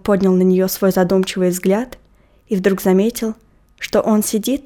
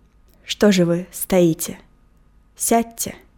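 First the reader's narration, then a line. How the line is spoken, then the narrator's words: Suddenly soft, gentle voice. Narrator (Russian): проговорил вдруг переменившимся, тихим и ласковым голосом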